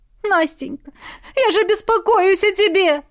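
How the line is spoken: Speaking through sobs. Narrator (Russian): Сквозь рыдание проговорила мама

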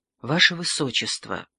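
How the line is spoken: Reluctant, halting, after pause. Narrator (Russian): помолчав, выдавил из себя дон Фуэнсолида, малыми порциями отпуская все дурные известия

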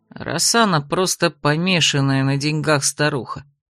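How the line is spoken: Gloomy grumble. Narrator (Russian): хмуро буркнул Иридас

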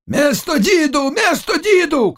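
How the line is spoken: Shouting. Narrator (Russian): кричал Заглоба

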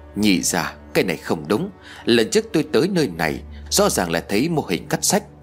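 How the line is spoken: Quiet, surprised. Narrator (Vietnamese): Tôi nhỏ giọng kinh ngạc nói

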